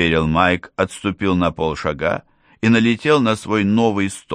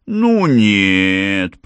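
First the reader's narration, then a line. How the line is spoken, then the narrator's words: Drawl. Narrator (Russian): протянула программистка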